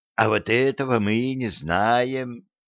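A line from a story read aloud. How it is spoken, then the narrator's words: Heavy sigh. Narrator (Russian): тяжко вздохнул Федя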